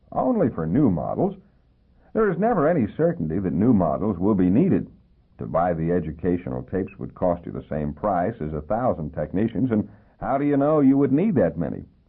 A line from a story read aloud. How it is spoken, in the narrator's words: laughed